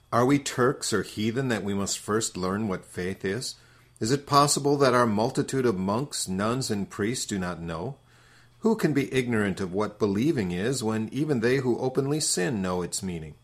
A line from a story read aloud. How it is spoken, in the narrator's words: they scoff and laugh, saying